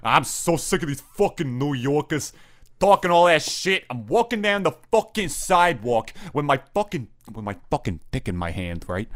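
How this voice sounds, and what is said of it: Put-on Jersey/Boston accent. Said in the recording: “you sound a little more Jersey there, though ... That's like a Newark. That's a Newark accent, right? ... I actually got a little Boston with it. It's like your cousin from Boston.”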